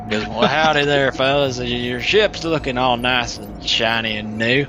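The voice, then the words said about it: Put-on Western cowboy accent. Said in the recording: “it's so much easier to do a Western accent. ... I can do this much better.”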